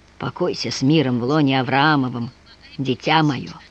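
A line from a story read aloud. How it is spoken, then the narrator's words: Muttered. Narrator (Russian): пробормотал он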